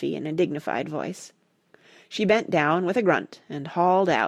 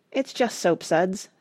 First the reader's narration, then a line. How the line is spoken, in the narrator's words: said Rush sadly